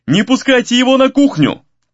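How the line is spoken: Shout. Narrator (Russian): крикнул Гризли

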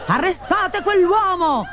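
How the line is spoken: Shouted. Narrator (Italian): urlò Pantalone

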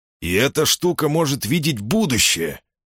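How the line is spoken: Snort. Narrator (Russian): хмыкнул Колдмун

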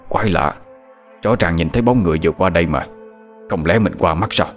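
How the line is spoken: Puzzled muttering. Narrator (Vietnamese): miệng lẩm bẩm

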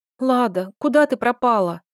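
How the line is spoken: Sobbing. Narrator (Russian): всхлипывала она

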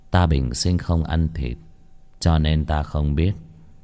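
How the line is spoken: Very gentle, with a smile. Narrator (Vietnamese): Vị nhận lợi cung hình dung cổ quái bỗng nhiên cười một cái, rất nhẹ nhàng nói

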